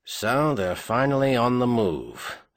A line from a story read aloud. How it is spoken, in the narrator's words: Sir Corin Garvey murmured